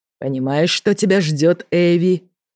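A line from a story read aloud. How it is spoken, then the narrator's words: Growling. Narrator (Russian): прорычал Эмерек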